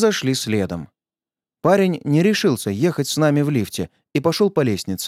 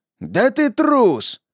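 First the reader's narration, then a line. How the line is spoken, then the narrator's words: Yelling back. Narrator (Russian): заорал в ответ мудозвон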